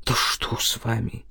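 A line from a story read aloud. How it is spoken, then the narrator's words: Breathed out. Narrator (Russian): выдохнул Илья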